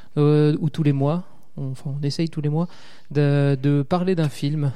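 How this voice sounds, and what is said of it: Sing-song Alsatian accent. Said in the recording (French): “Je viens d'Alsace. Ça ah. s'entend à mon, mon accent chantant. Ah, si on peut dire que l'accent alsacien est chantant.”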